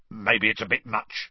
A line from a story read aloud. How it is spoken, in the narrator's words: he said gruffly